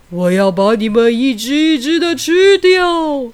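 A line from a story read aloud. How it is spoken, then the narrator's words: Terrifying roar. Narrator (Chinese): 大章鱼发出可怕的吼叫声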